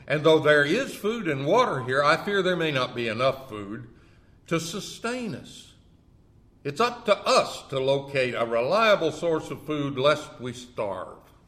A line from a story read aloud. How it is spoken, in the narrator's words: exclaimed Arlo